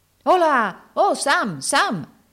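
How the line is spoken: Shouted. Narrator (Italian): gridò allora Andy, interrompendo quel soliloquio

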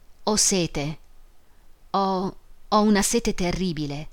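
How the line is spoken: Sighed. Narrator (Italian): sospirò

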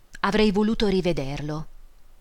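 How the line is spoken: Sigh. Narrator (Italian): Una volta sospirò

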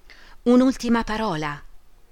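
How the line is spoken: Pleading. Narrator (Italian): Orlandi supplicò

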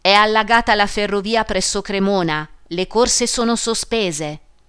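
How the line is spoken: Cracked voice shouting. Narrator (Italian): Una voce fessa gridò

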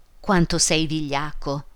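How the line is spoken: Woman's exclamation. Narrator (Italian): esclamò lei

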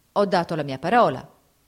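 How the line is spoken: Plain. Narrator (Italian): rispose Fabrizio

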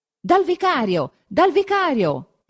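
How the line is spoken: Single repeated shout. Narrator (Italian): è il solo grido che si possa sentire

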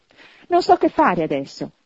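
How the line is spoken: Laughing and crying. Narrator (Italian): esclamò ridendo e piangendo insieme

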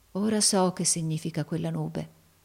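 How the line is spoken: Murmured. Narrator (Italian): mormorò

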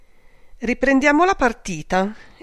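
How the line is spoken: Sarcastic exclamation. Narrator (Italian): esclamò con sarcasmo Marga Merani

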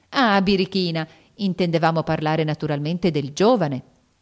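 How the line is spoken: Laughing exclamation. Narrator (Italian): esclamò la signorina Bella, ridendo

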